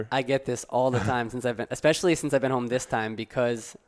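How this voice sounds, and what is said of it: Slight European accent. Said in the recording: “some of your words, there's a little bit of European accent”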